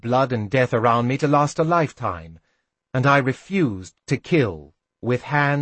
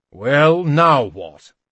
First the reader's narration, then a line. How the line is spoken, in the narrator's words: he demanded harshly